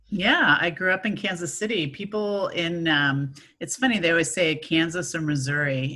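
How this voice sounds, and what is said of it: American accent. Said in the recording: “there's a bit of an American accent we've got going on”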